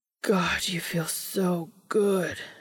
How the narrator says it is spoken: he moans

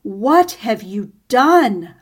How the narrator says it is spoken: roared

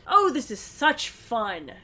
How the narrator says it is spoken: Nancy exclaimed

